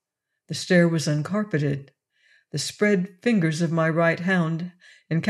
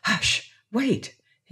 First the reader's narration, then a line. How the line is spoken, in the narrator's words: he whispered